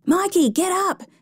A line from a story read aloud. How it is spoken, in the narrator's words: shouted Richard